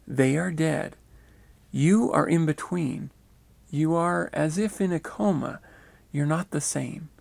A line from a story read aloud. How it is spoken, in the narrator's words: He explained gently